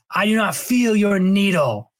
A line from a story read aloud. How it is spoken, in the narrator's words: he shouted at Fade